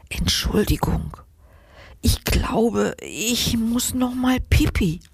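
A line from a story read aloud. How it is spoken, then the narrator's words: Little mouse whispering. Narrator (German): flüstert die kleine Maus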